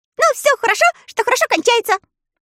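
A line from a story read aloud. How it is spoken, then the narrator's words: Cheerful agreement. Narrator (Russian): весело согласился Татошка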